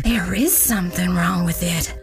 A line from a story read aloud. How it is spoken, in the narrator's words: Some of them whispered